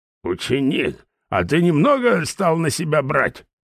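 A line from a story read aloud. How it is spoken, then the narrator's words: Angry question. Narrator (Russian): зло спросил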